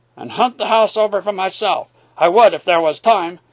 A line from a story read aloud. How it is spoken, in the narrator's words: he cried